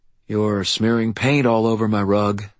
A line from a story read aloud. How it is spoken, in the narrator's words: I said wearily